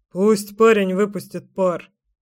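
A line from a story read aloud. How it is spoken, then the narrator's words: Dad snorting. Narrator (Russian): хмыкнул батя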